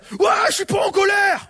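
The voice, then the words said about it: Angry shouting. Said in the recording (French): “elle hurlait ... Pourquoi tu cries?”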